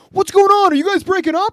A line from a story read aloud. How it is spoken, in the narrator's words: some guy in the crowd is just screaming